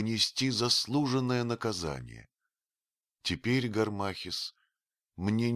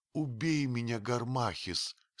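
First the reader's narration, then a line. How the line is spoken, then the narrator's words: Moaning. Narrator (Russian): стонала она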